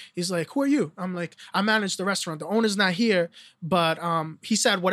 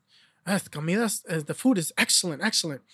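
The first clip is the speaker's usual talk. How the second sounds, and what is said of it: Put-on Spanish accent. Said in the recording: “with the Spanish accent”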